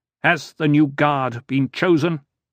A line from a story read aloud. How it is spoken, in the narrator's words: In a stentorian voice, Leto asked